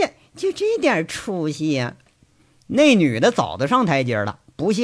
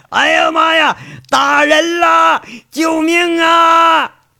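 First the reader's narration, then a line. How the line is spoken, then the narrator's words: Squealing shriek. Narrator (Chinese): 嘴里像杀猪似的开喊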